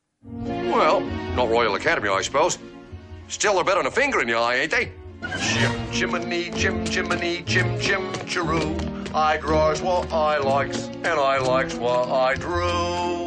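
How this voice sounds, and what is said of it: Exaggerated, inconsistent Cockney accent. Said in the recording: “the Cockney accent. It's often cited as actually the worst accent in film history ... the exaggerated and inconsistency is just the worst ... the worst Cockney accent ever done”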